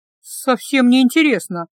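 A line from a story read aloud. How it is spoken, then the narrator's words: Sighed. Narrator (Russian): вздохнула Гелла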